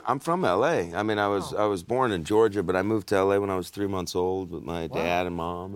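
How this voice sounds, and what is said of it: Deep-voiced American accent. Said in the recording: “that sounds the sort of accent we like, because it sounds really American ... he's got a nice, deep voice”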